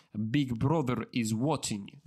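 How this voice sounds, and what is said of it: Put-on Russian accent. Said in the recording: “like a Russian accent”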